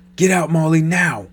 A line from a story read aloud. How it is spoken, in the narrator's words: shouted